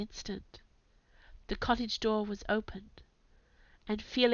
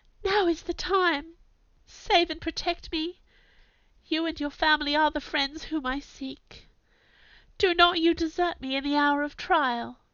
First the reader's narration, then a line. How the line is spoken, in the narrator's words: cried